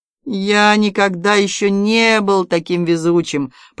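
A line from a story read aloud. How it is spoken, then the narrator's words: Groaning. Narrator (Russian): простонал Август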